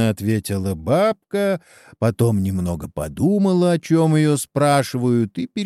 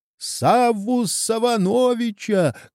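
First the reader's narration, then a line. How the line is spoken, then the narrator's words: Strained shout. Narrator (Russian): крикнул Чеба и весь покраснел от натуги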